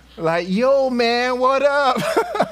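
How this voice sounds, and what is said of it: Put-on American accent. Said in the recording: “I ended up speaking with an American accent”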